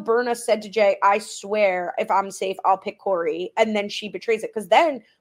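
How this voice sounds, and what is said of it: Usual voice. Nothing is said of it.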